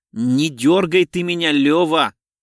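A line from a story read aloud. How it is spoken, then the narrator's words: Irritated grumble. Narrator (Russian): раздраженно проворчал он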